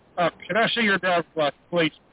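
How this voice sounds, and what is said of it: Authoritative, commanding tone. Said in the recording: “in a authoritative voice”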